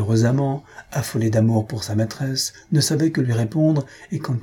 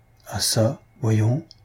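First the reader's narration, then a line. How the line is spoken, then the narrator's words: Anxious murmur. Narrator (French): murmura la pauvre fille anxieuse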